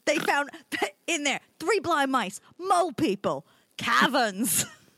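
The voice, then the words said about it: Child-like Mike Myers Fat Bastard impression. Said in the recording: “I don't even know what accent I'm doing anymore... like a child doing Mike Myers as Fat Bastard”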